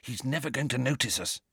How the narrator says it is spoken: he whispered

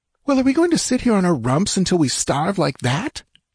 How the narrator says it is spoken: she cried furiously

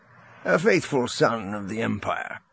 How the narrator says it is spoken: Rogris said, his tone jovial

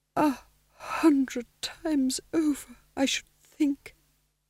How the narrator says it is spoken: said weakly

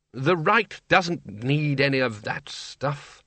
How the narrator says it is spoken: said Ridcully sharply

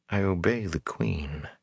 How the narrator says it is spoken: she whispered

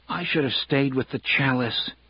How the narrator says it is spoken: he said miserably

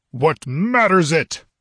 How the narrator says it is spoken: roared Zeltotin, a terrible sight, his eyes blazing, his features convulsed

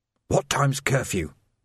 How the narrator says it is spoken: Vimes whispered

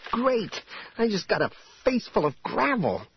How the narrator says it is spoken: Jaina spluttered

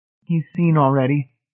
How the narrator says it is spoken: Marcia said in a strange, choked voice

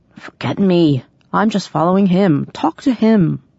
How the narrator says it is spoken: prince grumbled

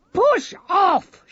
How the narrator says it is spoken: shouted

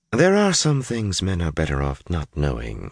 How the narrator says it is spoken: Shiriam replied coolly

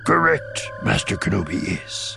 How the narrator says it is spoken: Yoda said solemnly

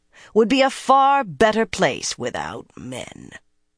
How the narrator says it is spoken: she announced in a growl

